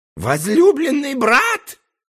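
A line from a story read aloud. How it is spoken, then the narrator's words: Shrieking. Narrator (Russian): завизжал тогда Дальбена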